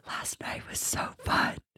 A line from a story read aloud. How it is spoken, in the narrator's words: I just whisper